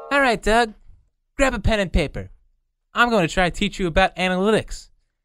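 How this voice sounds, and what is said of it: Imitates another person's voice. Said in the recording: “my horrible Howie impression and my equally as bad Doug impression”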